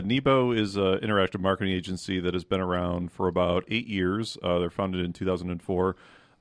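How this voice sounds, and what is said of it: Polished radio-announcer voice. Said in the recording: “radio voice ... that is a killer voice. That is just A+.”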